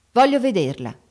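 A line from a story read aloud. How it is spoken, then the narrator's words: Curt repetition. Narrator (Italian): ripeté seccamente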